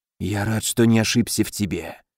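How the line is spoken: Relieved ghostly sigh. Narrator (Russian): с облегчением выдохнул призрак

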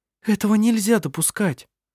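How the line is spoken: Frightened exclamation. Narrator (Russian): испуганно воскликнула Сири

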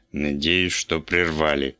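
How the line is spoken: Grumpy clipped mutter. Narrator (Russian): сварливо процедил Вульф

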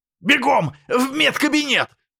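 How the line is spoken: Barked shout. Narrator (Russian): гаркнул Олег Петрович

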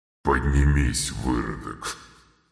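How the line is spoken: Disdainful, through gritted teeth. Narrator (Russian): Брезгливо процедил лорд Доминиона

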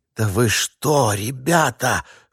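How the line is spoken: Strained whisper. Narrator (Russian): шепотом выдавил он

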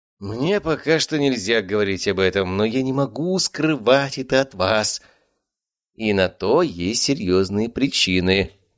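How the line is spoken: Sighing. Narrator (Russian): вздохнул Леонид

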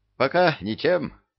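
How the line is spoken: Cheerful. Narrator (Russian): бодро ответил дьявол

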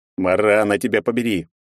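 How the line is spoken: Growled. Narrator (Russian): прорычал я

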